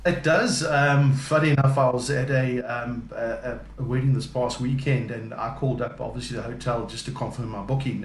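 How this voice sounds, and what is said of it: South African accent. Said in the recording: “this is my South African accent ... you're sounding so posh on the phone”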